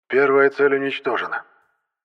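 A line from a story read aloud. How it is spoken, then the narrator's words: Suddenly hoarse voice. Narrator (Russian): мгновенно севшим голосом произнес Кудрявцев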